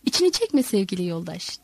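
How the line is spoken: Plain. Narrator (Turkish): dedi

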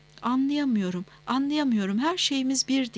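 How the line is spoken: Stammering. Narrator (Turkish): diye kekeledi

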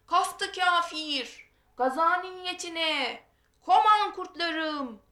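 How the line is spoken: Battle cry. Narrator (Turkish): haykırışıyla

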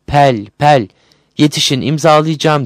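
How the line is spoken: Shouting. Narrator (Turkish): diye bağırıyordu

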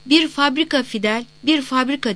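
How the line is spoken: Shouting. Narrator (Turkish): diye bağırıyordu

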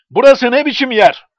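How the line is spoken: Cried out. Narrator (Turkish): diye haykırdı

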